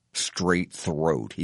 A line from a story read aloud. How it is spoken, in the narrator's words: he mutters